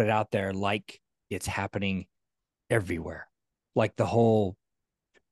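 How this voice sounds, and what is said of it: Usual voice. Nothing is said of it.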